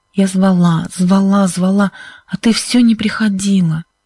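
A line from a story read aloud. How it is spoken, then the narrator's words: Hoarse voice. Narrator (Russian): сказала Сьюзен хриплым голосом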